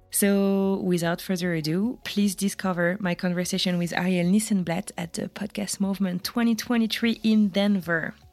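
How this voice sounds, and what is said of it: Heavy non-native English accent. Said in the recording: “my terrible accent”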